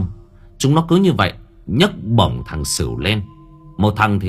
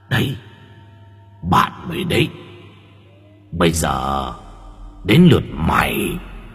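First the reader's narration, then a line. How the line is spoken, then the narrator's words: Sinister hiss in ear. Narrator (Vietnamese): Chúng nó rít vào tai của thằng Sửu bằng giọng âm u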